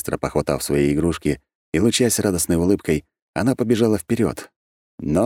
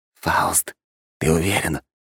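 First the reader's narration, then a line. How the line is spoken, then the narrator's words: Whispered into ear. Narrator (Russian): на ухо шепнул мне Шей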